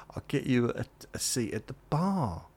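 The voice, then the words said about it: Failed attempt at an accent. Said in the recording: “No, I can't do the accent.”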